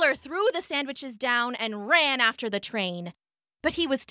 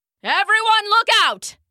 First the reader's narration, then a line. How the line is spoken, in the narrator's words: he shouted